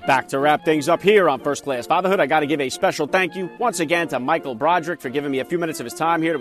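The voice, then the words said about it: Jersey accent. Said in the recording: “I love that Jersey accent”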